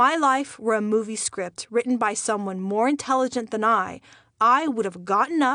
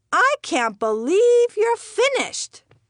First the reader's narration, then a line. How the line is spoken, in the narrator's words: she squealed